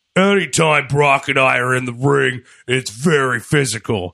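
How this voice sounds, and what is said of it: Imitates another person's voice. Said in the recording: “this in my Braun voice. ... How was my Braun impression? ... Honestly, pretty good.”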